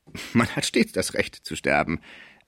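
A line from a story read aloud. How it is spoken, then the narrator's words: Laughing. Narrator (German): sagte der Schreiber lachend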